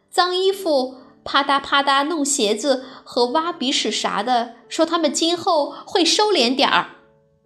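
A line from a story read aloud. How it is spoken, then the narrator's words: Loud announcement. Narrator (Chinese): 他大声宣布道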